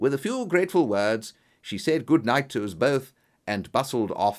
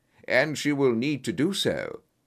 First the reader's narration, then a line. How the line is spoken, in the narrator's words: said Holmes gravely